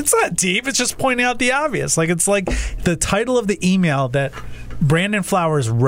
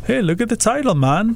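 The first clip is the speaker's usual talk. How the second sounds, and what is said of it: Put-on reggae-style accent. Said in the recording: “I can't even do his accent, but I sound like a reggae guy.”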